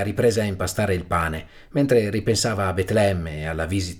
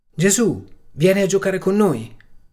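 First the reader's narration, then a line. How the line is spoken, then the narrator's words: Shouted from the street. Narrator (Italian): aveva gridato Esther dalla strada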